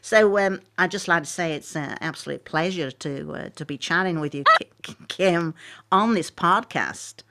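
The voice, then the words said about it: Put-on American accent. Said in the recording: “I can do an American accent if I was asked to ... so do an American ... It's awful.”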